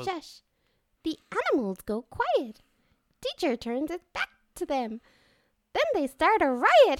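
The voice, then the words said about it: Elmo voice, sounding oddly sinister. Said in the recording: “Do your Elmo impression ... What the fuck is that? ... Elmo's not evil.”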